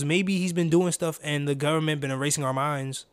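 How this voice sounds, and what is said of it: Sounds like a bratty white kid. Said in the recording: “Why did I say it like that? ... I sound like a little bad white kid.”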